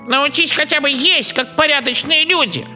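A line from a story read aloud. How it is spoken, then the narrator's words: Ship mouse grumbling. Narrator (Russian): проворчала корабельная мышь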